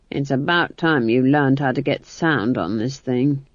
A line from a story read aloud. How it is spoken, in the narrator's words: Granny muttered